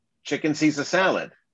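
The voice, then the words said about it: Put-on New York accent. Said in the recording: “you tell it in a New York accent.”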